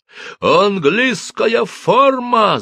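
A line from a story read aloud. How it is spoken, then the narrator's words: Captain yelling. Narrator (Russian): заорал капитан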